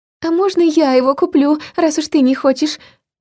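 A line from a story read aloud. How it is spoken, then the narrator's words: Confused girl's squeak. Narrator (Russian): пискнула одна из подружек, видимо, не слишком разобравшись в ситуации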